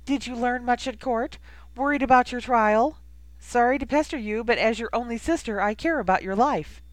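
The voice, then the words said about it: Girlish voice, mock concerned tone. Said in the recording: “in a girlish voice, affecting a tone of great concern”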